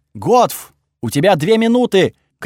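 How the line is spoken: Shouted at top of lungs. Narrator (Russian): крикнул я во всю глотку

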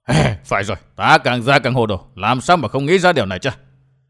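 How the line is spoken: Startled muttering. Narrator (Vietnamese): Thần toán đồng tàu sực tỉnh, lẩm bẩm

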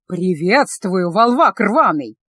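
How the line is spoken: Careless, through clenched teeth. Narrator (Russian): небрежно процедил князь

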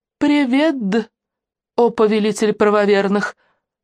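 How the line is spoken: Chuckling. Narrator (Russian): хохотнула Алена

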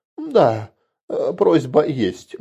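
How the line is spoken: Hesitant, village elder. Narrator (Russian): неуверенно сказал староста

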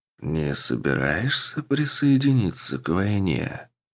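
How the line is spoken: Calm question. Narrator (Russian): спокойно спросил тот, кого демоны называли своим повелителем

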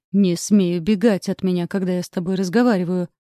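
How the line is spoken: Growl. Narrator (Russian): прорычал он

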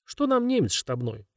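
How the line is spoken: Grumbling. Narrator (Russian): проворчал Головко

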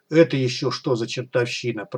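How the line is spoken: Confused mutter. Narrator (Russian): пробормотал Смычок растерянно

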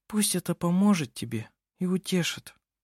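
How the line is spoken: Barely audible murmur. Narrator (Russian): сказала она еле слышно, почти про себя

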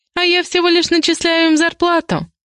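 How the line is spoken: Giggle. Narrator (Russian): хихикаю я

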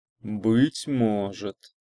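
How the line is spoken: Thoughtful, academic. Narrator (Russian): задумчиво сказал академик

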